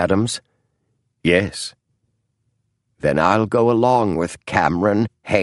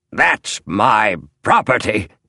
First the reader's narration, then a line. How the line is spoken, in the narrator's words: snarled the small historian